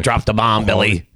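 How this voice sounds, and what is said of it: Mediocre Dustin Hoffman impression. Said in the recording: “I do a good Donald Sutherland, too. Or, well, no. ... It's Dustin Hoffman. ... Dustin Hoffman. I do a good ... Dustin. No, not a good one. ... It's not a good one. ... It's probably a little bit better than his British, but not by much.”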